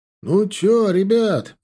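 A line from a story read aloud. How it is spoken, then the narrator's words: Shouted from a distance. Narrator (Russian): закричал с танка заряжающий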